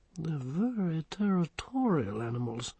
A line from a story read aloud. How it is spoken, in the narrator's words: murmured her ladyship